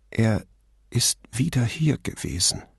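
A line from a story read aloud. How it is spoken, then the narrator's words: Trembling voice. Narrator (German): sagte sie mit zittriger Stimme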